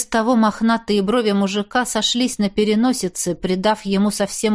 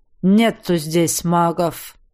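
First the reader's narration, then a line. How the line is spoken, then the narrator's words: Muttering. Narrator (Russian): Снова буркнул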